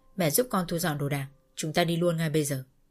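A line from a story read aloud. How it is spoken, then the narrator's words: Cold. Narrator (Vietnamese): Cầm thì lạnh lùng và nói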